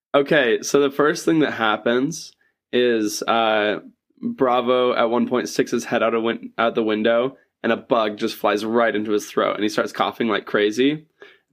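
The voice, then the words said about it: Rough voice, sounds like a cold. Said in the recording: “my voice sounds like this today. It's not a cold.”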